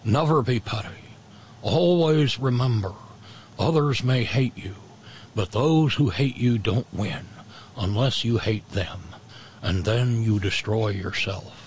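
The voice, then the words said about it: Cheesy Richard Nixon impression. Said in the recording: “my cheesy Richard Nixon impression”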